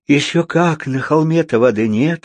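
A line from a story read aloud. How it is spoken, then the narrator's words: Bitter sigh. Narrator (Russian): горько вздохнула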